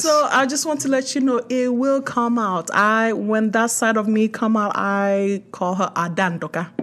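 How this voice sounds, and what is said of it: Nigerian accent. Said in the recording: “that's why you hear the accent like real good. And sometimes it can come out very well ... the Nigerian accent”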